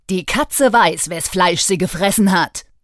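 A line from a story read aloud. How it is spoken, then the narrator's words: Menacing hiss. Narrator (German): Zarin Elisabeth fauchte drohend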